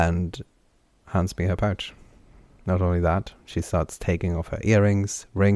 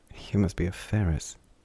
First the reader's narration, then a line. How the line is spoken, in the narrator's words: mumbled down towards his hands